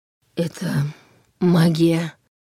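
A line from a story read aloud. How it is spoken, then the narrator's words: Hoarse croak. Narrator (Russian): прохрипел Нев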